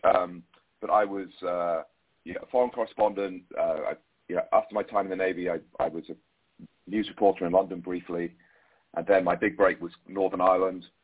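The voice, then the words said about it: British accent. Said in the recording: “my background, as you can tell from the accent, as you mentioned, is British”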